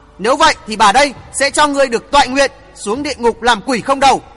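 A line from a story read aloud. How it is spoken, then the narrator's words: Arrogant laugh, hateful shout. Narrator (Vietnamese): Cất tiếng cười ngạo nghễ một lúc, Thất Hồn Nhân căm hờn quát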